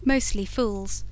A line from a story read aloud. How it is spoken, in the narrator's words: said Evelyn, and laughed again, laughed in all the conscious power of lovely 18